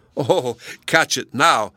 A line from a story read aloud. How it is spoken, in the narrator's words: cried Donatello